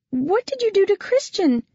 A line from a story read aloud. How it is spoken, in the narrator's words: she cried